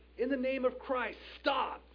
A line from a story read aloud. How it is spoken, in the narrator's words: He cried out firmly